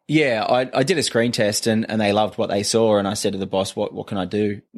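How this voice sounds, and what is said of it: Australian accent. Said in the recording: “basically because of my accent ... change your accent ... an Australian telling English people about football sounds pretty daft”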